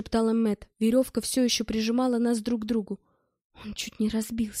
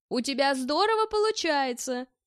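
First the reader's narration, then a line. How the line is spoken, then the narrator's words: Shouted. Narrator (Russian): крикнул я Тенгизу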